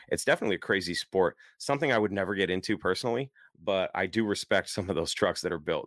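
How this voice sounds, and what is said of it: Tired, hoarse, strained voice. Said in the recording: “trying not to lose my voice ... tired with a bad voice”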